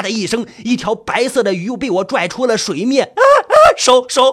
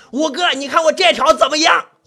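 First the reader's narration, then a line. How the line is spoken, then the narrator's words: Calling out. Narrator (Chinese): 冲着五哥喊了一声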